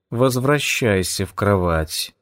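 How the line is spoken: Purr. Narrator (Russian): мурлыкнула она

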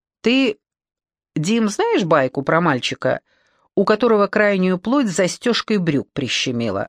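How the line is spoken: Plain. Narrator (Russian): спросил автор

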